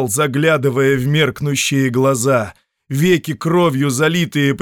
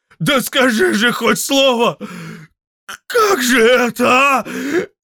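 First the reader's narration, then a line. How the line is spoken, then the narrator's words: Shouted. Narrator (Russian): Чернея крикнул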